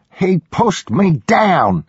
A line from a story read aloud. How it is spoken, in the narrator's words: she yelled